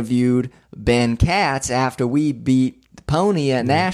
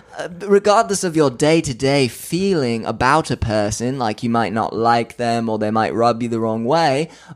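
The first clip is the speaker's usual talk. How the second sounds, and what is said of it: Slight put-on British accent. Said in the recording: “I'm kind of switching into a little bit of a British accent now.”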